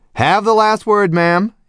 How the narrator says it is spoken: he said cheerfully

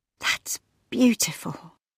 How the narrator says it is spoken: breathed Leela

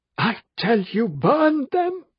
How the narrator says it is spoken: It was almost a sobbing voice

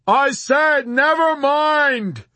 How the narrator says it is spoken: Yossarian screamed with a trapped feeling of terror

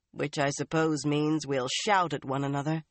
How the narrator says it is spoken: Swan said dryly

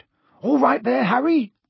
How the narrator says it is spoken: he had time to yell

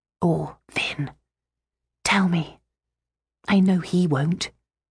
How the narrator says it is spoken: I whispered

